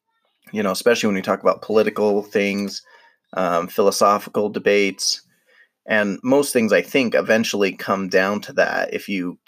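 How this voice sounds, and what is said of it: Hoarse, strained voice. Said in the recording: “I'm losing my voice again”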